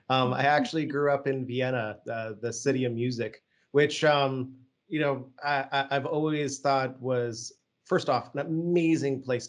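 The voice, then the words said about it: Generic American accent. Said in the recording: “my generic American accent”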